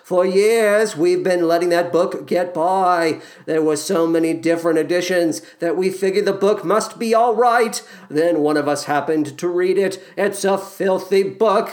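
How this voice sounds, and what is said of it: Boston accent. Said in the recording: “Let's try and do some sort of Boston accent”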